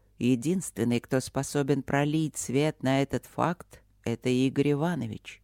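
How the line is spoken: Calm. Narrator (Russian): спокойно сказал Святослав Федорович

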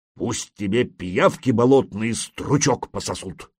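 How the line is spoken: Grumbling. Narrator (Russian): проворчал Свей

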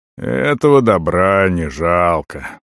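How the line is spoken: Creaky chuckling voice. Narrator (Russian): проскрипел со смешком Орон

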